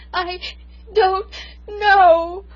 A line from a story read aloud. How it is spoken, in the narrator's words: I sobbed